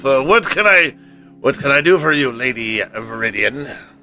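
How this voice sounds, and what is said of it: Character voice with an accent. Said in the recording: “I don't remember if this was his accent or not, but I think it's what we're going to go with.”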